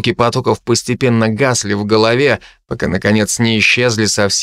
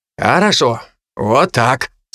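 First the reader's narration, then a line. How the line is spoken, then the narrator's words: Louder, then long noisy exhale. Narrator (Russian): сказал уже громче, долго и шумно выдохнул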